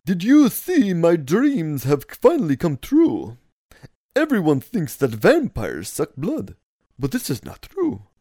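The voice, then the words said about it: Vampire character voice. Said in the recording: “I have to do this in vampire voice.”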